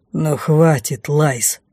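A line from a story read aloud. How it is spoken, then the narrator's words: Angry distant growl. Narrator (Russian): сердито рыкнул из глубины кабинета де Фос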